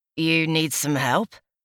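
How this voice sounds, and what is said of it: Rich accent, male character voice. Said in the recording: “his rich accent”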